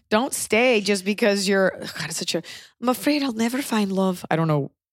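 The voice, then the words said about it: Put-on British or Irish accent. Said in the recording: “What accent? ... She's British. ... You did not say you were Irish ... That could still be British.”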